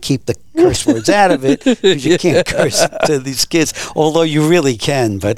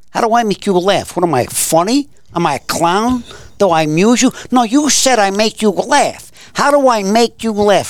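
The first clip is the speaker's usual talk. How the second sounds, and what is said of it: Imitates another person's voice. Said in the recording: “my Pesci impersonation, they think I'm really Joe Pesci”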